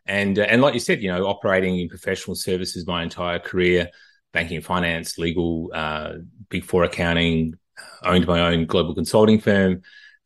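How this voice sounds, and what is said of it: Australian accent. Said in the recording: “just from the accent, you know, I'm originally from Australia ... I don't think I'm losing this accent anytime soon”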